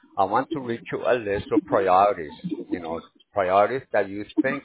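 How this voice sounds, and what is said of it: Slight accent, speaking quickly. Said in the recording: “you got a little accent, so I'm trying to stay up with you”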